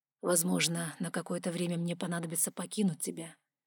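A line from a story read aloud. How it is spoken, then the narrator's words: Quiet. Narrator (Russian): проговорил Вайлар тихо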